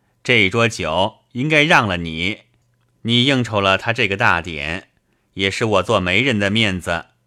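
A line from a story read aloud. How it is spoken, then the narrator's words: Laughing. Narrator (Chinese): 小云笑着对我道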